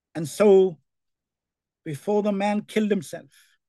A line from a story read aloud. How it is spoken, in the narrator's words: Paul shouted